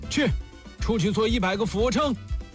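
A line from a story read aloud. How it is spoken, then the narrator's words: Furious teacher roaring. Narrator (Chinese): 老师对大头怒吼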